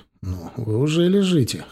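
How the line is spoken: Snort. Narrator (Russian): хмыкнул я

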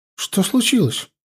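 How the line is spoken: Frightened girl's question. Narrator (Russian): испуганно спросила девчонка

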